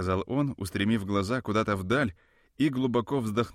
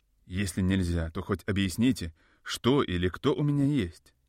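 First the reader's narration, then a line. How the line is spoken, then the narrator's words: Plain. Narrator (Russian): спросил я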